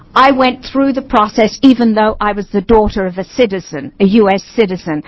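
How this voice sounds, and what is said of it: Noticeable non-native English accent. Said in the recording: “You can tell by my accent.”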